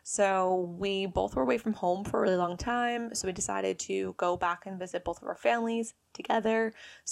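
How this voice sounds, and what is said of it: American accent. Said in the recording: “I am obviously American, as you can tell from my lovely accent here.”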